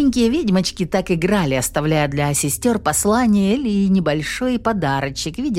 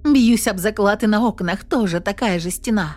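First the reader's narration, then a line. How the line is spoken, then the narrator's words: Involuntary hopeful exclamation. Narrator (Russian): Непроизвольно воскликнула Инесс, подспудно надеясь, что где-то есть прорехи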